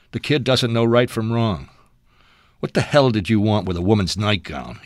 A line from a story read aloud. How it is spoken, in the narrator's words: laughed